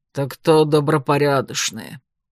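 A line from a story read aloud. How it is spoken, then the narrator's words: Grumbled. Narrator (Russian): буркнул Кроули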